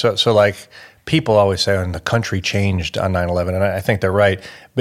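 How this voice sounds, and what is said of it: American accent. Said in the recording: “you can tell from my accent that I'm American”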